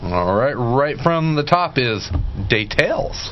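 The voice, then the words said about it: Bad put-on Southern accent. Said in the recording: “That's my bad southern accent.”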